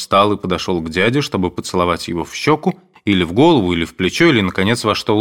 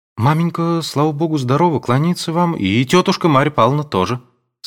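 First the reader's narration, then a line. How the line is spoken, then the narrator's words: Timid speech. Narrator (Russian): сказал робко Александр Федорович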